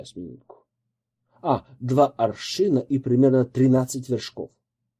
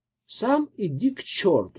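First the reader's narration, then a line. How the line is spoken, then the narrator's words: Plain. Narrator (Russian): говорит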